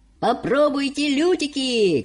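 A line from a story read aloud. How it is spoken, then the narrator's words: Shouted. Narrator (Russian): кричал мистер Уонка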